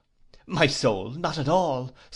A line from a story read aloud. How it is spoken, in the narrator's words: said I cheerfully